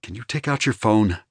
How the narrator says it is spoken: he asked quietly, with a look of pity

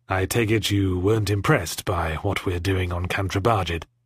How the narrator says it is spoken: he said grimly

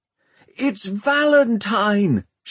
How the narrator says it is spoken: shouted Tom

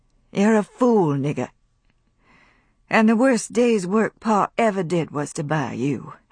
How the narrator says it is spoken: said Scarlett slowly, too tired for anger

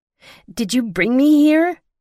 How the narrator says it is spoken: I yelled at Will

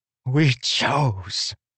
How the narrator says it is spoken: she hissed

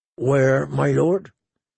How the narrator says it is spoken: His voice was flat and lifeless

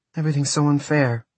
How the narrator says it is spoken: Maria sighed

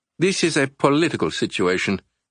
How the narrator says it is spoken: Garza stated firmly

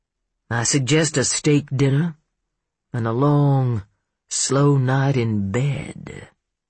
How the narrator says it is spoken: he drawled

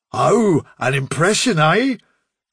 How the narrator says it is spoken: sneered Bigwig

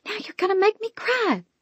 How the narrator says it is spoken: I hissed

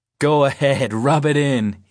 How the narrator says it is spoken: laughs

